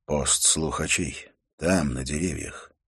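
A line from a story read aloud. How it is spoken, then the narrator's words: Barely audible voice. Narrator (Russian): произнес едва слышным голосом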